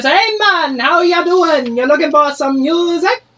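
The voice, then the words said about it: Put-on Jamaican accent. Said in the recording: “I'm gonna try to do something Jamaican.”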